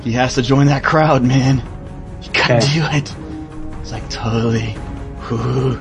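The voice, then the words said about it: Imitates another person's voice. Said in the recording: “My tiny TM impression”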